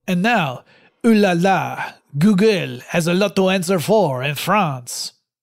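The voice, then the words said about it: Bad put-on French accent. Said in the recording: “I can't promise that's going to be the last of the accent. And I know it's terrible.”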